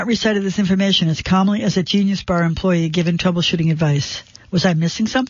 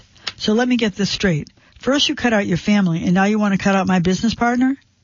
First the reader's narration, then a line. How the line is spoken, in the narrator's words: I laughed too, nervously